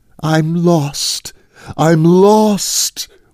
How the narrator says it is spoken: wailed the voice in his brain

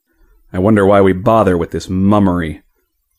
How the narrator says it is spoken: grumbled Hereward

